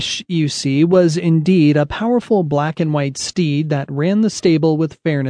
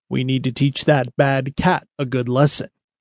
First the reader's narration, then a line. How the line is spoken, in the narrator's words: he said in his very deep voice